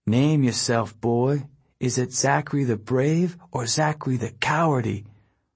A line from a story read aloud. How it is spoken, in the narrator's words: Right above my head someone whispered